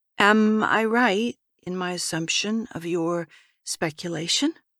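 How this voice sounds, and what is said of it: Low, quiet voice. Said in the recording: “started in a low voice ... She continued in a low voice, stepping a bit closer”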